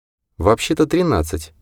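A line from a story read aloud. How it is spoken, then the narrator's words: Quiet remark. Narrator (Russian): тихо заметила майор Джейн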